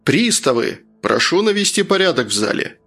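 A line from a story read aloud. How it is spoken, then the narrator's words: Judge's stern bark. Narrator (Russian): Грозно рявкнул судья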